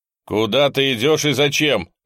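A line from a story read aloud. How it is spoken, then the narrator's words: Stern shout. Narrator (Russian): закричал он на него строго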